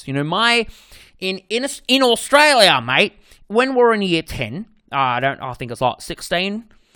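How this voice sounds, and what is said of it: Put-on Australian accent. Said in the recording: “that's my Australian fucking accent ... I'm going to stop doing the accent”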